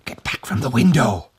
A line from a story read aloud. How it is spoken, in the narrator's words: old Tag shouted in a strangled voice